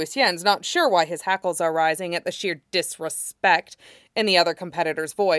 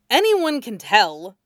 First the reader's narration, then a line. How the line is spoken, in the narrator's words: snaps